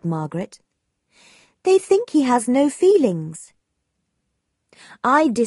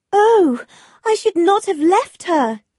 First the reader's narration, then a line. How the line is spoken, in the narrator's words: cried Margaret